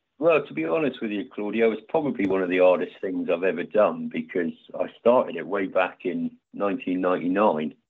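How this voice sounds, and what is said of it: English accent, not American. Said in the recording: “as you can probably hear by my accent, I'm not American... Devon in England”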